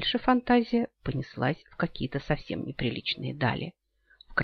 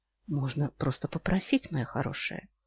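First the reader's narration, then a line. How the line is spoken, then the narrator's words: Drawling soft voice. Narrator (Russian): Тягучим, мягким голосом произнес Йен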